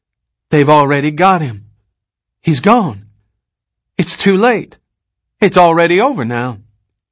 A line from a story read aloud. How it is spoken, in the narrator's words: thought in a gasp, a surge of relief